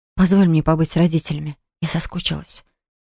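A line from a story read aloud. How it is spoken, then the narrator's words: Whispered. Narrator (Russian): шепнув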